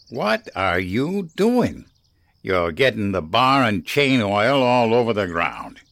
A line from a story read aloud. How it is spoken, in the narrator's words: he growled